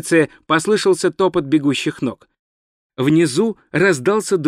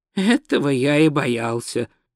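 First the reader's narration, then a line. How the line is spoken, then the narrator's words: Sighing. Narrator (Russian): вздохнул Ринцвинд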